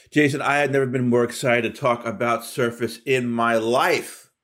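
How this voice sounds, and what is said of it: Mildly sarcastic delivery. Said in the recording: “Are you being sarcastic? ... I'm being a little sarcastic”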